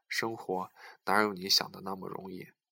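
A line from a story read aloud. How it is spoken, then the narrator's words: Sighing. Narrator (Chinese): 船长叹了口气说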